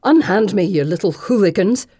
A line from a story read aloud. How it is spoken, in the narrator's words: she snarls, not so willing after all